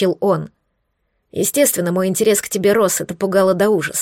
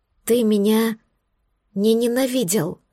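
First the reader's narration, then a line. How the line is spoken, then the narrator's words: Whispered. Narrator (Russian): прошептала я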